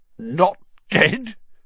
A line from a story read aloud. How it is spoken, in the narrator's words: choked Filch